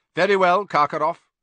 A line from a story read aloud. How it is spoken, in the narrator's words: Crouch said coldly